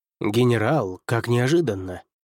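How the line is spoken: Muttered reply. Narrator (Russian): пробормотал в ответ на мою просьбу садовник

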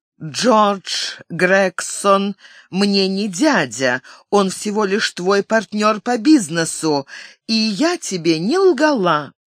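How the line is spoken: Deep breath, unexpectedly even voice. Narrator (Russian): Она глубоко вздохнула, чтобы не потерять самообладание, и сказала неожиданно ровным голосом

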